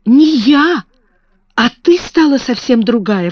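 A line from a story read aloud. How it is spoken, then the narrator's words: Exclaiming. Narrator (Russian): воскликнула она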